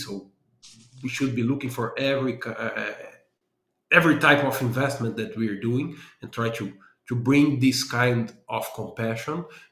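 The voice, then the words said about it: Brazilian accent. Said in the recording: “I do have an accent from Brazil”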